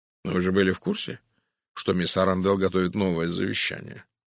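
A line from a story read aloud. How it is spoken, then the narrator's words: Calm question. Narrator (Russian): спокойно спросил Пуаро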